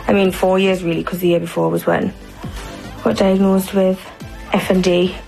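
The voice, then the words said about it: Speaks with an unusual foreign-sounding accent. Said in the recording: “my accent has changed ... a new, unintended speech pattern that listeners perceive as a foreign accent ... it's not the same accent that she had”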